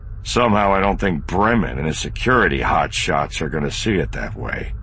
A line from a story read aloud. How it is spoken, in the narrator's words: Han said grimly